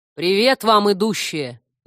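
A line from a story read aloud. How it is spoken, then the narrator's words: Sudden deep bass. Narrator (Russian): неожиданно пробасил демон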